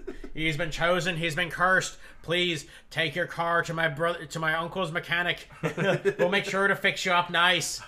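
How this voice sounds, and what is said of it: Put-on Irish accent. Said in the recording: “I'm doing an Irish accent ... I can't not do it now.”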